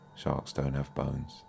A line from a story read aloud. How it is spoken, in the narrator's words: mumbled Lucy